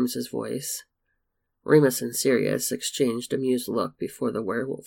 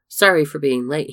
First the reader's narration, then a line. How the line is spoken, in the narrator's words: called out